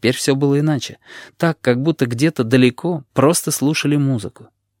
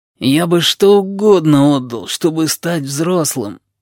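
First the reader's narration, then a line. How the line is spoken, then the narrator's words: Moaning. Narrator (Russian): простонал сиамец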